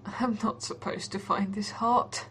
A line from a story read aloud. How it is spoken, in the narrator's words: John groans in embarrassment